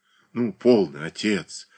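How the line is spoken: Affectionate. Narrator (Russian): ласково говорил Александр

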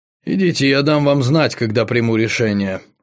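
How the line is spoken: Cold. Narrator (Russian): холодно ответил Семен Маркович

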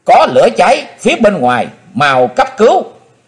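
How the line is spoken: Shrill scream. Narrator (Vietnamese): Có tiếng thét lanh lảnh của Hát Phụng Hoàng vang lên

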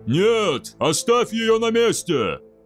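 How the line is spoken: Louder roar. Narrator (Russian): Громче прежнего взревел Двослир

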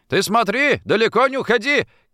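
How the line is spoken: Caretaker shouting across street. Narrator (Russian): крикнул ему дворник через улицу

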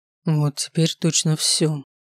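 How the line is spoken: Said in a dejected voice. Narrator (Russian): упавшим голосом произнес он

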